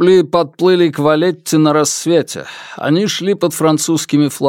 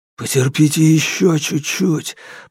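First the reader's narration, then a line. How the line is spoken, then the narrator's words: Desperate whisper. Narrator (Russian): прошептал он так же отчаянно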